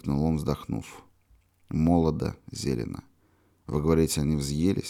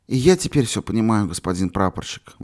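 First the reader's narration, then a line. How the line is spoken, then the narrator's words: Exclaimed. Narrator (Russian): воскликнул Юрочка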